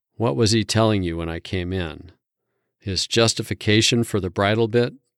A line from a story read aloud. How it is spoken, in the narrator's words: asked as calmly as I could